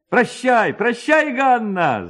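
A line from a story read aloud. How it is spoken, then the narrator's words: Several young men shouting. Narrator (Russian): закричало несколько парубков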